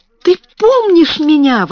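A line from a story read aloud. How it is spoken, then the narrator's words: Exclamation. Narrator (Russian): воскликнула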